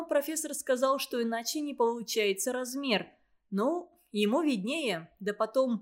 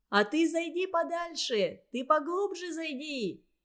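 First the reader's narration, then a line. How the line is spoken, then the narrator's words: Shouting from the shore. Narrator (Russian): кричали ему с берега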